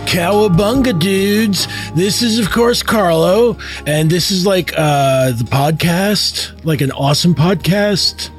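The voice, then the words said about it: Put-on West Coast surfer accent. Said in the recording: “this totally gnarly West Coast accent that comes from surfer culture”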